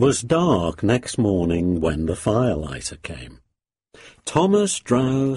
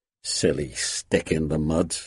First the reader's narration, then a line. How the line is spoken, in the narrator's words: he chuckled